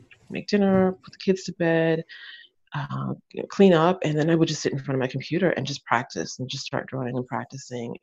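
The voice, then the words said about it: American English accent. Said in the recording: “despite the ... accent, I'm American”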